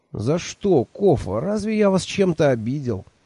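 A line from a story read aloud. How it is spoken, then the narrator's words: Unhappy asking voice. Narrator (Russian): несчастным голосом спросил я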